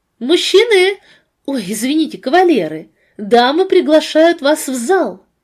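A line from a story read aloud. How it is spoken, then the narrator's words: Loud announcement. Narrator (Russian): Она громко объявила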